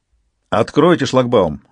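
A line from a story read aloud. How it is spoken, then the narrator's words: Commanding, authoritative order. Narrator (Russian): властным голосом приказал Мигель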